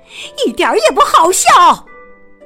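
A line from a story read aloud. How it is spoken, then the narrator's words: Loud angry shout. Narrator (Chinese): 他冲着贝琳达大声的吼着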